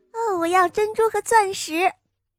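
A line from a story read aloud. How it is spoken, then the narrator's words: Calling out. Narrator (Chinese): 第二个叫道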